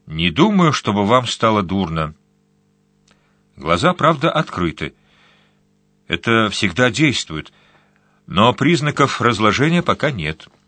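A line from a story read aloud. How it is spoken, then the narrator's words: Calm. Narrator (Russian): спокойно сказал Робину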